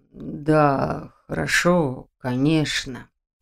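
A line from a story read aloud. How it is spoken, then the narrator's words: Mumble. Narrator (Russian): пробормотал Нев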